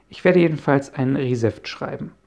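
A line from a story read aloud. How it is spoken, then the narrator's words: Plain. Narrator (German): sagte Jonas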